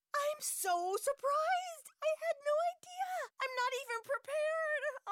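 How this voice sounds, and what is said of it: Mock Hollywood acceptance speech. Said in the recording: “my impression of a Hollywood acceptance speech”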